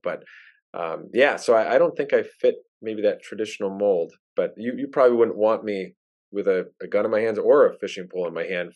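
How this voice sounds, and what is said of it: Thick Wisconsin accent. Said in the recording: “I don't know if I'm a true Wisconsinite ... Maybe my accent is thick enough to carry the day across all of those stereotypes.”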